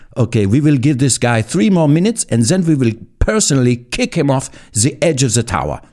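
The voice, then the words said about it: Put-on vague European accent. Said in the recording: “Was that a German accent or French? Oh, it's European.”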